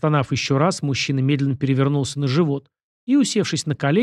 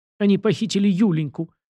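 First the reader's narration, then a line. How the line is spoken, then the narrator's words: Muffled sobbing man. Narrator (Russian): всхлипнул граф, закрывая лицо руками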